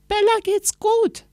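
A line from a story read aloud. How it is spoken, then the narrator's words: Calling downward. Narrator (German): rief Anna nach unten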